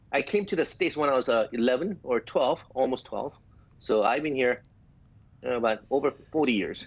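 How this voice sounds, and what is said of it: Slight Korean accent. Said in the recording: “I'm detecting a little bit of an accent. Is that Polish? ... I have a small Korean accent.”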